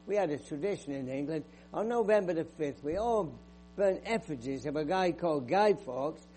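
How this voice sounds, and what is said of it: English accent. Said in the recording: “I grew up in England. You can tell from my accent.”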